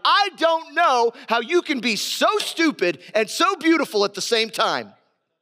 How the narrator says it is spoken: After arguing for about an hour, the exasperated husband finally shouted

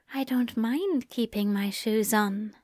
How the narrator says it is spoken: the angel whispered

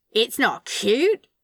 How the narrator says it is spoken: Crowley spat out

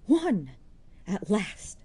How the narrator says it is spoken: cried Jude

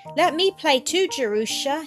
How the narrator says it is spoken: he cried

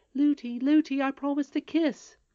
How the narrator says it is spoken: cried Irene

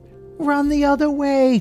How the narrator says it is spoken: cried Kitty

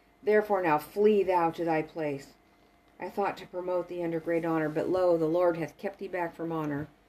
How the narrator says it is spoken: The king exclaimed fiercely

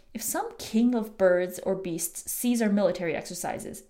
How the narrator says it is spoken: said

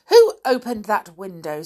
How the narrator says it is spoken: said Nanny crossly

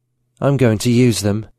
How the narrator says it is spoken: she sighed

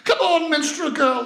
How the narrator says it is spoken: The crowd around shouted

